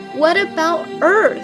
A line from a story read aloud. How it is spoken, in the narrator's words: The Pegasus exclaimed with a whinny